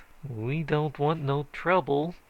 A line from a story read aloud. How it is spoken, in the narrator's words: quavered old man Richardson